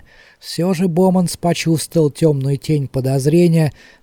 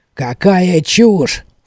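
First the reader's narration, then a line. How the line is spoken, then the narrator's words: Snorted. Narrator (Russian): фыркнул Боманс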